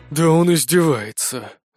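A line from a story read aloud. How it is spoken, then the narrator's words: Breathed out. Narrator (Russian): выдохнул полковник Харрисон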